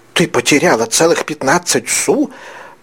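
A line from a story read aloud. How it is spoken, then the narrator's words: Hissed. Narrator (Russian): прошипела Тенардье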